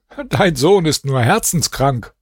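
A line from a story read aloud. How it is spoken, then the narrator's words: Laughing. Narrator (German): Der Perser lachte und sagte zu seinem Vater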